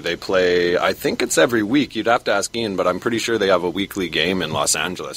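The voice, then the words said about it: Canadian accent. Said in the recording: “I'm pretty sure from the accent, that he is Canadian. ... they have a Canadian accent all the way. ... it's completely Canadian.”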